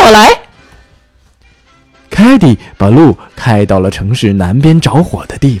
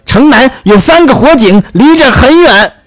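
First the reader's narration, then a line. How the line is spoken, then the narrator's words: Shouting. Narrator (Chinese): 消防队长喊道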